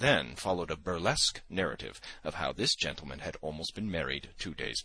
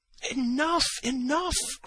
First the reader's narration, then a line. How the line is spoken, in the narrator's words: cried Zverkov